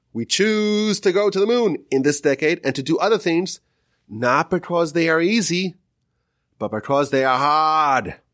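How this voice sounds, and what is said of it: JFK impression, Boston accent. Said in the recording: “JFK speech ... forgive my Boston accent”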